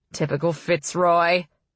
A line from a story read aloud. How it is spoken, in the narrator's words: a man near him said, his voice booming across the hall